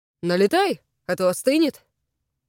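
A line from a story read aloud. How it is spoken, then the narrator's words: Cheerful. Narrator (Russian): бодро произносит он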